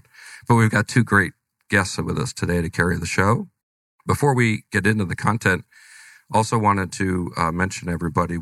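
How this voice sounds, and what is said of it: Slightly congested, off voice. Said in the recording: “I've got a bit of a cold, so if my voice is off or you hear a sneeze or a cough”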